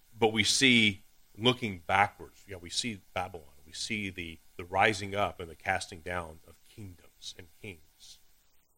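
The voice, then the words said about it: Deep East Texas accent. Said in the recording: “My Texas accent is hard to hit ... I'll be from Deep East Texas”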